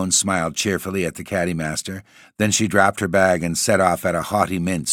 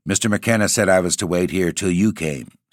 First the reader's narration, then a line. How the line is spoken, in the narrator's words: said Dexter quickly